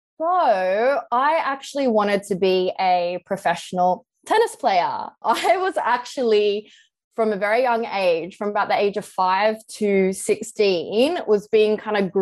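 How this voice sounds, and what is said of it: Australian accent. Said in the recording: “you haven't lost your Aussie accent”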